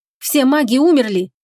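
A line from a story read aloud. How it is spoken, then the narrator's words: Angry exclamation. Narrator (Russian): снова зло воскликнул Фенрис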